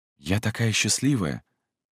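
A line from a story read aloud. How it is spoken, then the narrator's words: Whispering. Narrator (Russian): шептала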